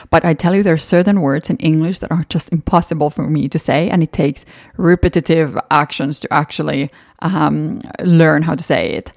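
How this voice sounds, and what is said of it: Finnish accent in English. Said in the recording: “Since I am a Finnish native, I definitely have an accent, and you probably hear that in every episode”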